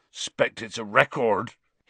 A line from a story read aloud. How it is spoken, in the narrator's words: he said thickly